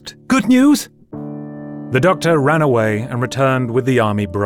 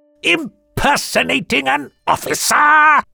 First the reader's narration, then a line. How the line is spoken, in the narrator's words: Lord Hay sputtered